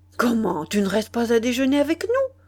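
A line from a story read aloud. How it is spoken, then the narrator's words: Astonished exclamation. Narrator (French): s'écria Guillaume stupéfait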